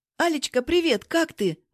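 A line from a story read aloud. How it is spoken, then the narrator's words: Cheerful greeting. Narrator (Russian): бодро здороваюсь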